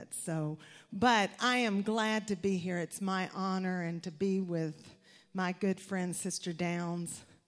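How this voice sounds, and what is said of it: Southern US accent. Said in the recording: “I've got that good Southern accent, and I probably will never lose it”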